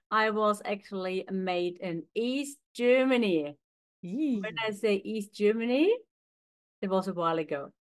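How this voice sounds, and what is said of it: Slight foreign accent. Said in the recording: “as you can hear, I've got a little bit of an accent.”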